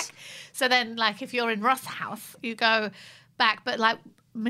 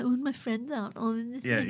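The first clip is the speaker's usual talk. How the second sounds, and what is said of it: Imitates another person's voice. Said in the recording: “that little impersonation”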